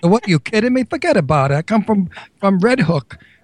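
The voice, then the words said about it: Exaggerated Brooklyn accent. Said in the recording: “Brooklyn accent ... I'm from Brooklyn.”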